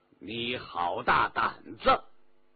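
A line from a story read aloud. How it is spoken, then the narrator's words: Stern, low voice. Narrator (Chinese): 皇帝哼了一声，沉声说道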